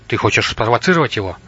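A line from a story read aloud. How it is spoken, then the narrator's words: Sharp question. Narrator (Russian): резко спросил Рубас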